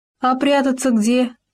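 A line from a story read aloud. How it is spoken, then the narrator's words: Cheerful question. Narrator (Russian): весело спросил суслик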